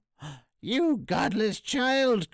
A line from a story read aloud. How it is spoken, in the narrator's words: cried the witch